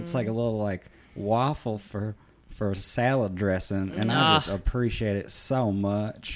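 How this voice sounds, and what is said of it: Soothing Minnesotan regional accent. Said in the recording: “your accent is just soothing, if you will ... you're so darn cute sounding on the phone”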